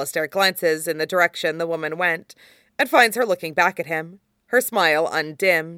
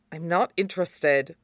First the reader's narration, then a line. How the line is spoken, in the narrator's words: mutters